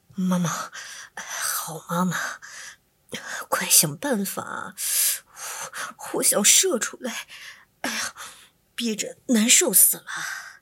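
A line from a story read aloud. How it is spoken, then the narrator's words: Embarrassed low pleading. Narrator (Chinese): 小流氓不好意思，嘴里低声哀求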